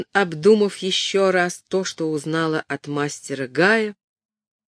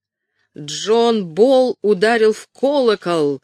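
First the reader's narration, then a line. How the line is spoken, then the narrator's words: Loud rapturous cry. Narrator (Russian): громко, упоенно вскричал он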